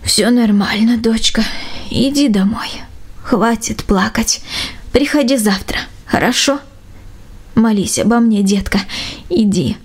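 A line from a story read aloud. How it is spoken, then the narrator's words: Tender whisper. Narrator (Russian): Степановна лишь ласково шепнула девочке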